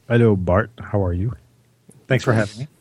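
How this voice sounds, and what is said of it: Deliberately low, deep radio voice. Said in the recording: “You got very low all of a sudden. ... It just felt like I had to talk really low. ... This is your radio voice, is it?”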